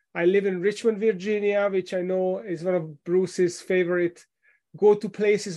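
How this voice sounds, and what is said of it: Hungarian-accented English. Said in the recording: “You might have noticed from my accent that I was not born here. I moved here with my family from Hungary in Central Europe”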